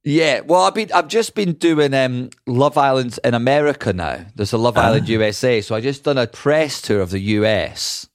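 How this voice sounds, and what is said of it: Scottish accent. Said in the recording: “that accent is Scottish... talking about Scottish accents... with this accent”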